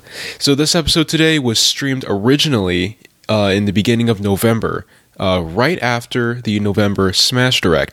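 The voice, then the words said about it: Voice rough from a cold. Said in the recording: “You'll have to excuse my voice in this intro because I'm getting over a little bit of the December cold”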